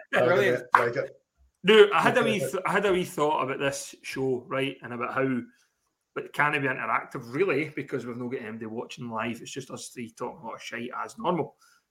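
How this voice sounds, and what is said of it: Northern Irish accent. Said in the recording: “It's just the accent, mate. It's just the accent... How to talk Northern Ireland with ... Today's dialect”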